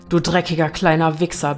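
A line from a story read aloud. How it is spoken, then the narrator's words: Father barking angrily. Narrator (German): bellte Nadines Vater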